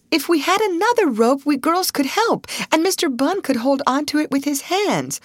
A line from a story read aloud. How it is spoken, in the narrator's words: Ruth cried